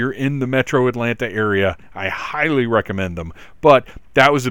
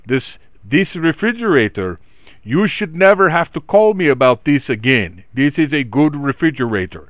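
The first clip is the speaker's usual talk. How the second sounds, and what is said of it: Poor imitation of another person's accent. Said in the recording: “His accent was much more pleasant than that. My accent was absolutely terrible.”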